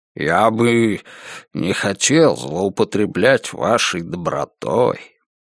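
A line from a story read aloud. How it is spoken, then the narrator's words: Mumbled. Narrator (Russian): Пробормотал он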